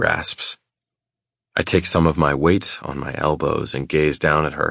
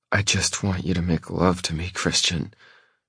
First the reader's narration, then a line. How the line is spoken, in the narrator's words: she says through gritted teeth